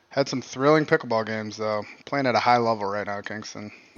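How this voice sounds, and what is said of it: Slightly out of breath. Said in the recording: “How has your pulse come down to a normal level ... I'm still feeling like my fucking a little out of breath.”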